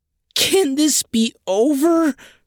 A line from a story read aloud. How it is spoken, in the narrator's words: wailed Helga